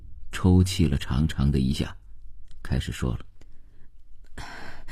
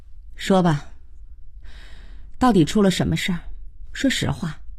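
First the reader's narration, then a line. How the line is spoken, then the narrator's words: Heavy sigh. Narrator (Chinese): 慧娟长叹了一声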